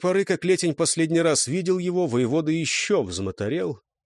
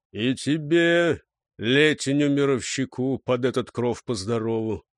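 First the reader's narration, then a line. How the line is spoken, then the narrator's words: Low booming reply. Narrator (Russian): прогудел в ответ низкий голос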